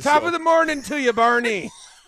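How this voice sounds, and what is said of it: Put-on Irish accent. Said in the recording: “in that Irish accent”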